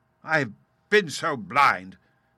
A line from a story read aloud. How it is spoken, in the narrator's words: cried the colonel